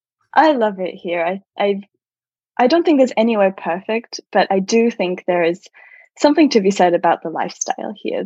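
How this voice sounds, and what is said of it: Australian accent. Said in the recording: “as an Australian with the accent I have”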